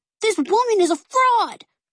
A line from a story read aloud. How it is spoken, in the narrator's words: Finch cried